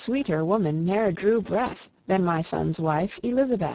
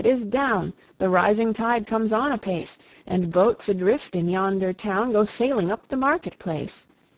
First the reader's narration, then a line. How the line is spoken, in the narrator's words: he cried